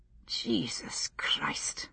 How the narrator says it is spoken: muttered to himself

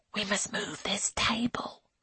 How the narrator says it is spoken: hisses Angelica

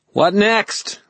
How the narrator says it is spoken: Merrill yelled at me

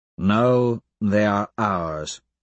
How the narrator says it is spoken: I drawl

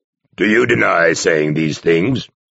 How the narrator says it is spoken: Arcos growled

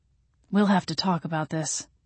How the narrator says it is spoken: Gabriel said dryly

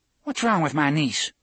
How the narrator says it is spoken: Cordelia had snapped

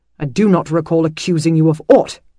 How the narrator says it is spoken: he snapped

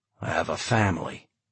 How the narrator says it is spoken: John said coldly

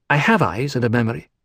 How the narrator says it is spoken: Lucilla snapped

